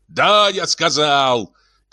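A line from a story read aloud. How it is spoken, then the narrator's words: Shouted. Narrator (Russian): крикнул Свенсон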